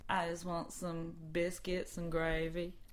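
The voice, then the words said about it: Put-on Texas accent. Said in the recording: “We promise we'd do a Texas accent.”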